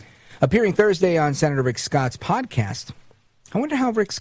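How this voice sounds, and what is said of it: Usual voice. Nothing is said of it.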